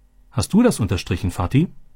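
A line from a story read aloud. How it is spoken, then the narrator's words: Plain. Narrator (German): fragte Robby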